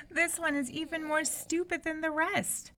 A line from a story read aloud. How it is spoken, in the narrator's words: exclaimed the eldest princess